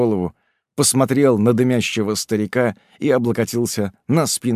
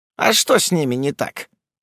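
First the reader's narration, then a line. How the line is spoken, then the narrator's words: Old man snorting. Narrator (Russian): Старик хмыкнул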